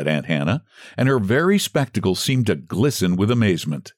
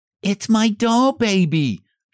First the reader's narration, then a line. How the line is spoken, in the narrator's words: she cried